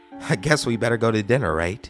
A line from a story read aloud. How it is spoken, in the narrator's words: She chuckles lowly